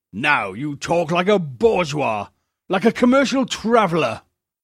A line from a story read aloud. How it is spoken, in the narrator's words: returned Esplan angrily